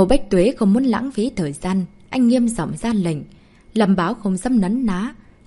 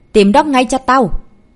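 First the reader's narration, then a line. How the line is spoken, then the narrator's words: Angry. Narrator (Vietnamese): Lâm Báo giận dữ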